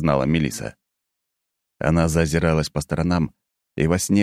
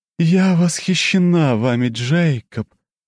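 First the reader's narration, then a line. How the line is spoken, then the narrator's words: Languid voice. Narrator (Russian): томным голосом заговорила императрица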